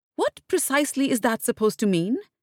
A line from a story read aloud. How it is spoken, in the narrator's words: she snapped